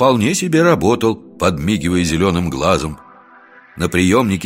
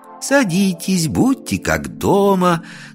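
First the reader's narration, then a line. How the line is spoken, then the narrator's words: Playful singsong. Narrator (Russian): нараспев, словно играя в кукольный домик, сказала Катя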